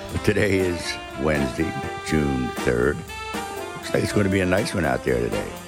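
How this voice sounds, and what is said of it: Hoarse, strained voice. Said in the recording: “You can tell I lost my voice.”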